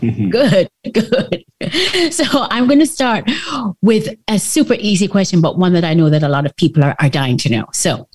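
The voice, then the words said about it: Warm Jamaican accent. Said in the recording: “Your warm Jamaican accent”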